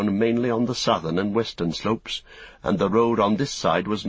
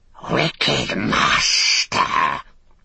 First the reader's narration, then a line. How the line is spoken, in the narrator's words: it hissed